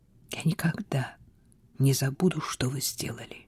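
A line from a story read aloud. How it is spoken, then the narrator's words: Whispering. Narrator (Russian): прошептала она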